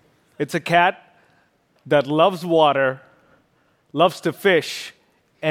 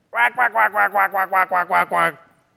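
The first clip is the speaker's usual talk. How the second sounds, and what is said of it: Imitates an animal call. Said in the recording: “my impersonation of a fishing cat”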